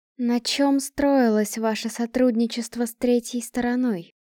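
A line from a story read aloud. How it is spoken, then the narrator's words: Plain. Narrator (Russian): спросила Лавиния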